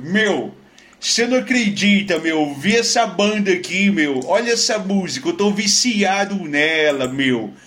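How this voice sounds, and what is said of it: Put-on São Paulo accent. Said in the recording (Portuguese): “ele é paulista ... no teu sotaque. Mas pra ficar legal, eu vou fazer o sotaque.”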